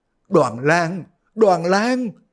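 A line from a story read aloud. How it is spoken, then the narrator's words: Sobbing cry. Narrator (Vietnamese): Dương phu nhân khóc ròng kêu lên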